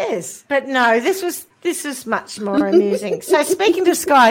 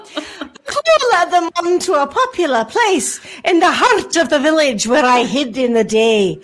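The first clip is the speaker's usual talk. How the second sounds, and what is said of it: Put-on Scottish accent. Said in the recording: “I think clowns should be forced to do a Scottish accent. ... Well, it's in Scotland, so I have to do it.”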